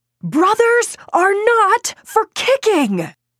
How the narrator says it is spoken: roar

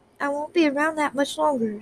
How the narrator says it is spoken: said quietly

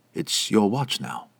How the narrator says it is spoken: Talmer whispered

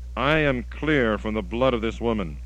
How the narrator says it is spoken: And he cried out with a loud voice

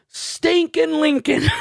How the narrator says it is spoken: I just yelled out

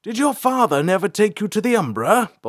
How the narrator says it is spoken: Balthar shouted, still hanging onto the outside of the carriage

